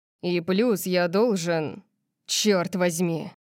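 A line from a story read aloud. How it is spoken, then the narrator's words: Growl, cutting himself off. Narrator (Russian): Он зарычал, как будто пытался остановить себя от продолжения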